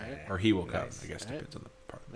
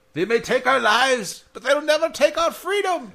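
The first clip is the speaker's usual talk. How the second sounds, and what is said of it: Weak put-on Scottish accent. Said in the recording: “half-assed attempt at a Scottish accent.”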